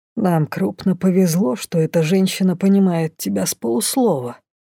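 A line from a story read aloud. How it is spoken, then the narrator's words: Grumbling. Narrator (Russian): проворчал лорд Лайс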